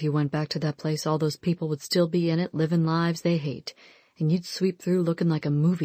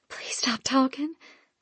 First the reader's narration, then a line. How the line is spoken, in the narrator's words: I whispered, seeing as he'd gone all fuzzy because my eyes were trembling with tears and I could take not one little bit more